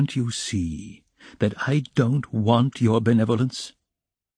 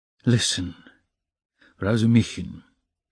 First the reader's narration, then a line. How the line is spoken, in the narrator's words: Raskolnikov began quietly, apparently calm